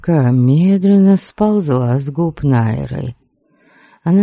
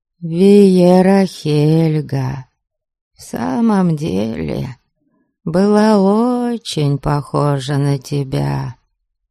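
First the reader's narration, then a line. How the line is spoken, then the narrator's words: Slow, measured servant. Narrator (Russian): медленно проговорила служанка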